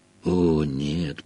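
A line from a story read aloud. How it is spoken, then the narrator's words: Moan. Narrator (Russian): простонал он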